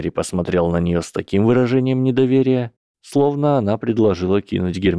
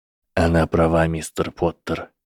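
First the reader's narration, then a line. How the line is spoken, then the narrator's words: Quiet. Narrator (Russian): тихо сказал Северус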